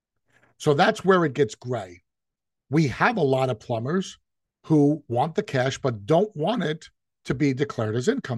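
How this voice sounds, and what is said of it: New York Italian-American accent. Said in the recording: “As an Italian from New York, I'm sure you can hear it in my voice”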